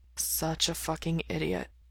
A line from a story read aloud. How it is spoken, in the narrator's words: he mutters